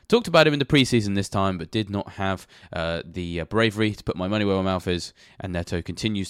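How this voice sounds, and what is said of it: Nasal voice with a cold. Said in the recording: “You may have noticed from the sound of my voice that I have a little bit of a cold. ... I sound somewhat nasal”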